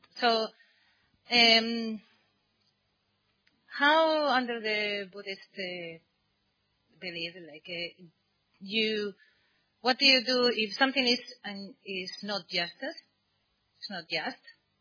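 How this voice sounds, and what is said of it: Speaks with a noticeable accent. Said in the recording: “my accent.”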